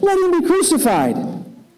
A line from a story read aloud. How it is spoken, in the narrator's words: they shouted all the more